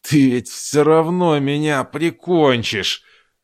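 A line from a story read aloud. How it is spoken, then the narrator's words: Wheezing through bloodied nose. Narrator (Russian): хрипел индеец, обливаясь хлынувшей из разбитой переносицы кровью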